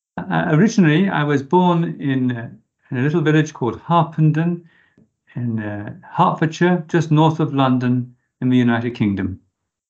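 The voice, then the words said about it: British English accent. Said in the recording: “our listeners will appreciate your accent”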